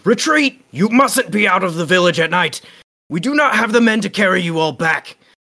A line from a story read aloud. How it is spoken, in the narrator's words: The men quickly shout to the woman